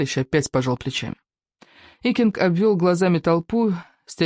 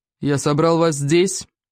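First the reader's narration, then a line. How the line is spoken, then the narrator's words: Booming. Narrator (Russian): прогудел великий вождь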